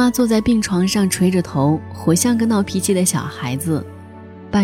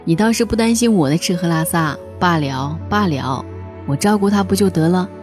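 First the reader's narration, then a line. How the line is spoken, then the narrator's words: Exasperated yet amused. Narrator (Chinese): 姑父又可气又可笑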